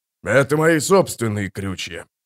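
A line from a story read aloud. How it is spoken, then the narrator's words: Hoarse deep bass. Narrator (Russian): хрипло пробасил Шишакли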